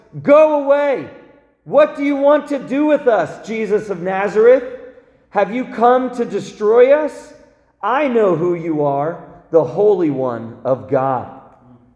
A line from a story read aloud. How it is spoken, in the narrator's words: He cried out at the top of his voice